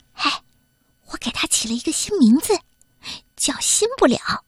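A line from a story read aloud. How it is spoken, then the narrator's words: Soft, quiet voice. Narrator (Chinese): 肯德拉小声地说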